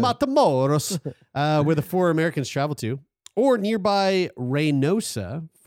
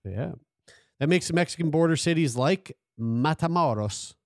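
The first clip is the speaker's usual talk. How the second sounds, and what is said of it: Put-on accent, sounds Italian. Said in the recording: “That wasn't really a Mexican accent. That was more like Italian.”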